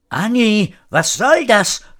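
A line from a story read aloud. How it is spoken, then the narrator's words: Called out. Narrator (German): rief Frau Horatio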